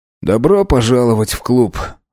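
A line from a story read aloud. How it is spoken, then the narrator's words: Wry snort. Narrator (Russian): хмыкнул Вацлав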